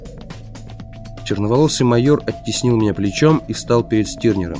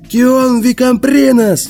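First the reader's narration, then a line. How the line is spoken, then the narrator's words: Yelled. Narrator (Russian): заорал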